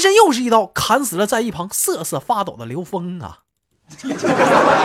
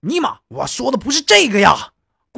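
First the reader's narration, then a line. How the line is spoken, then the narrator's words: Furious. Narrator (Chinese): 刘备大怒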